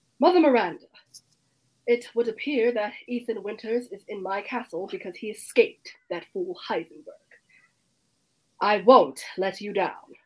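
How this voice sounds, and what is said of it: Character voice with transatlantic accent. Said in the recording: “her accent is almost the same as an American accent. Her accent is what's called a transatlantic accent, how they kind of sound in those really old movies ... is almost American, but it's not”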